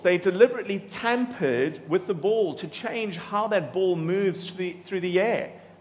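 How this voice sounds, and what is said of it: South African accent. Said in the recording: “my accent, it actually comes from Cape Town.”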